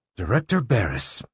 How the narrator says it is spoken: murmured

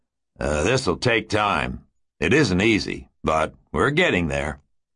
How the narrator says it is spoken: grunted sweatily, as he halted to take a breather, said

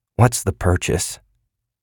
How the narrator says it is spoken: He asked gloomily

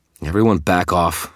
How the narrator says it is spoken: snarled

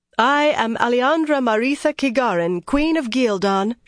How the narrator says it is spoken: she announced loudly, very much queen

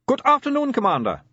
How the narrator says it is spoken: said Otto Shriek cheerfully

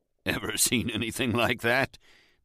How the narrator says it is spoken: the salesman chuckled

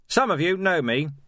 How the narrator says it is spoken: he shouted

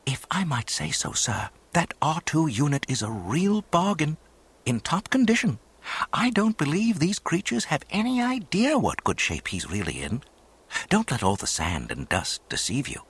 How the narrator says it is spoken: the tall droid whispered

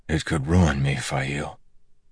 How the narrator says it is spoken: said softly

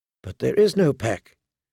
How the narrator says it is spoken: she whispered to the weirwood

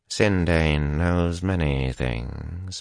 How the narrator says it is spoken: Moradin said softly

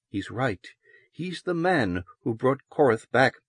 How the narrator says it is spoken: Loris said softly but firmly

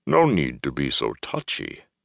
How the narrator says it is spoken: Loyal muttered

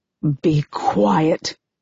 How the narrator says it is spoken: I hiss

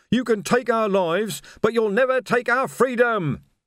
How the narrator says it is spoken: he screamed

